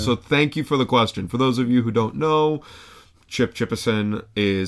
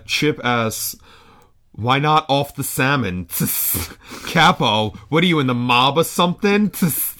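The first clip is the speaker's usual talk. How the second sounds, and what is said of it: Comedic character voice. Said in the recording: “I'll try to do my best Chip voice”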